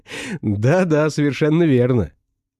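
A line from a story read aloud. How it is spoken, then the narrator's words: Doctor laughing. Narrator (Russian): рассмеялся доктор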